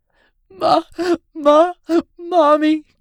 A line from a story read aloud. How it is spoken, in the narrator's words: Caitlin sobbed